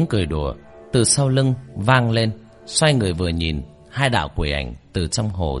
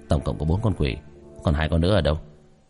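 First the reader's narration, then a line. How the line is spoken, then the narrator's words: Muttering. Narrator (Vietnamese): Tiểu thất ... lẩm bẩm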